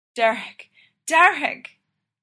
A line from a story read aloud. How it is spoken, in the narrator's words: She whines